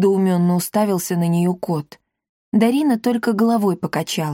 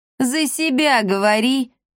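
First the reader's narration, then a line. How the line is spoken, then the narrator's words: Loud laughter. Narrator (Russian): расхохотался Акаций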